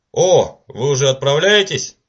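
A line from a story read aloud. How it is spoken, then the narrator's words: Exclaiming. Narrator (Russian): воскликнул Уимзи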